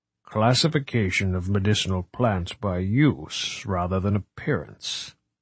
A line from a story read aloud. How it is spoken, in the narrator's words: murmured at last